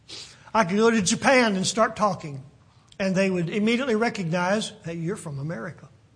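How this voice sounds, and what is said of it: American accent. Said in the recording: “They've heard my accent ... I think they could probably even pinpoint what part of the country that I'm from by my accent”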